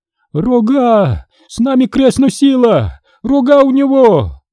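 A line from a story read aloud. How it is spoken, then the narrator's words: Old woman's sudden howl. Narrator (Russian): Старуха вдруг подняла обе руки, заслонясь от монаха ладонями, взвыла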